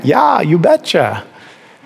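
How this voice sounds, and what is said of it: Put-on Minnesota accent. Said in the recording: “from Minnesota ... Maybe it's the accent”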